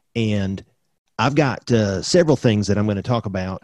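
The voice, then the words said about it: Exaggerated country accent. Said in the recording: “Jamie Vance Roseboro accent? It's a little country. ... That might be a little too country on that line.”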